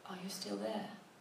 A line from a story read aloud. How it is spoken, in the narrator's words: She in a thin, frightened voice whisper